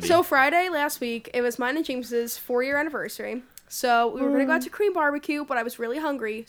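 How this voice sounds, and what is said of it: Slightly sick-sounding voice. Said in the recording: “Feeling a little under the weather, but I'm okay... I'm not 100%. You can hear it in my voice.”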